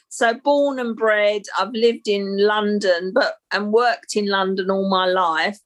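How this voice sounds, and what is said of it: London accent. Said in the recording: “I'm a Londoner. You would never guess by the accent, I guess.”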